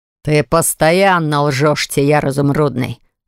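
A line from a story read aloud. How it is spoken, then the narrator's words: Furious growl. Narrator (Russian): рыкнул я, чувствуя, как тьма во мне хлещет через край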